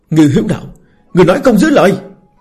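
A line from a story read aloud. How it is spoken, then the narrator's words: Roar. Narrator (Vietnamese): Một người gầm thét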